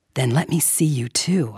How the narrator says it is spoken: whispered

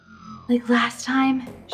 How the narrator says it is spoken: she gasped for breath

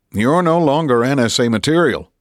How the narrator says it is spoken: he'd said

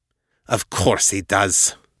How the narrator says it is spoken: Gerhard spat

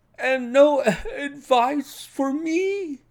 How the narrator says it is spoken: cried Blessington in a breaking voice

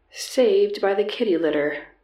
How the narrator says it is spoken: remarked dryly

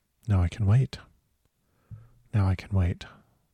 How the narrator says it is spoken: he grew quiet and kept murmuring to himself

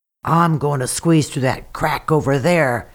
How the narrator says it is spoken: he croaked

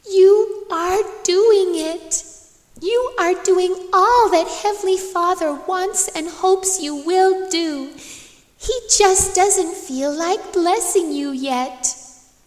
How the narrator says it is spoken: I felt like shouting out

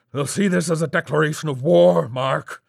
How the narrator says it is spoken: his voice shouted

